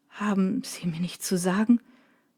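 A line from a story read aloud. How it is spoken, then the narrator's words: Choked voice. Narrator (German): fragt Drake mit erstickter Stimme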